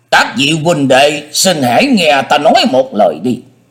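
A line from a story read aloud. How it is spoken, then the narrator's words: Raised voice. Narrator (Vietnamese): y cất cao giọng nói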